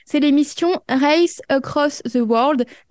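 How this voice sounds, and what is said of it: Accented English pronunciation. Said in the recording (French): “Désolé pour l'accent ... moi j'ai bien apprécié l'accent, il était, c'était pas, c'était cute.”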